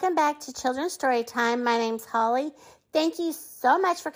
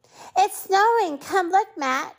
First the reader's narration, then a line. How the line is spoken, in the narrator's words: cried Jenny